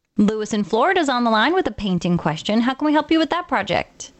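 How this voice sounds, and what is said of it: Attractive, pleasing female voice. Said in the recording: “you have one sexy voice”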